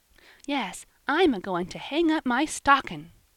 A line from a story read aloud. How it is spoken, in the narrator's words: cried the child